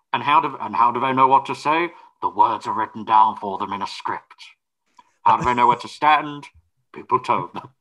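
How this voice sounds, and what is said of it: Sir Ian McKellen impression. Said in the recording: “to do a Sir Ian McKellen impression?”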